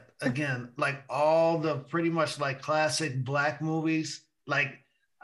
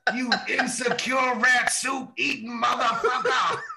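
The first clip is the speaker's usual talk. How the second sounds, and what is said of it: Good Dolomite impression. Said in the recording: “That's a pretty good impression of Dolomite.”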